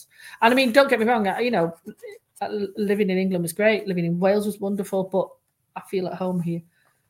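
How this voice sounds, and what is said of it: English accent. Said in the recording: “I'm English by accent”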